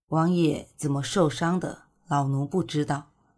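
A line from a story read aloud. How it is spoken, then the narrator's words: Sighing reply. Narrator (Chinese): 叹了口气，管家回道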